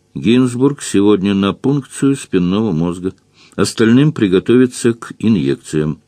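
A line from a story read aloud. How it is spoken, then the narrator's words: Calm, flat voice. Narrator (Russian): сестра Вика, спокойно и невыразительно сказала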